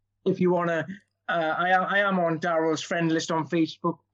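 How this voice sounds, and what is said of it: Welsh accent. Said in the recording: “I can't drop this accent ... in a Welsh accent”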